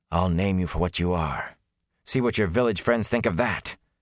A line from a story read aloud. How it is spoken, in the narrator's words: Matt added fiercely